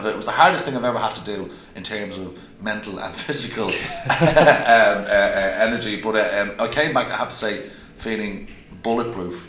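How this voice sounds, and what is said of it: Dublin Irish accent. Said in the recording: “my normal Dublin accent at my normal speed”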